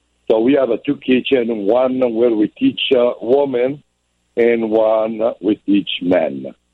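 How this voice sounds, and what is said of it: Italian accent. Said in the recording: “the accent, originally from Italy? ... Yes, I'm Italian. ... the accent doesn't go away.”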